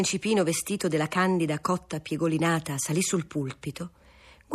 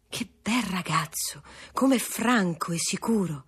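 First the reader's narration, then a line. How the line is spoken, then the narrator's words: Soft group exclamation. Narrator (Italian): Tutti esclamarono piano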